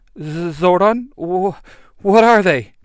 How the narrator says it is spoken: Kim says, her voice trembling

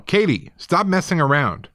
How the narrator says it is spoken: my dad came through the back door and we heard him yell

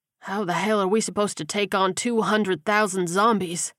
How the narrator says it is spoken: He moaned

